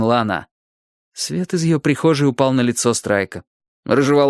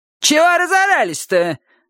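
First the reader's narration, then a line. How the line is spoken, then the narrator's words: Barking, woman. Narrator (Russian): рявкнула соседка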